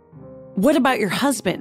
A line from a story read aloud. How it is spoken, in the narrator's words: he sputtered